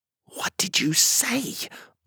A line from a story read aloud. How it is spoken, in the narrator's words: I whispered to Gabriel